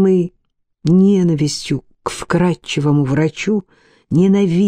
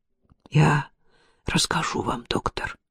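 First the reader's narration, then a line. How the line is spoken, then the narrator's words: Whispered. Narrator (Russian): прошептал он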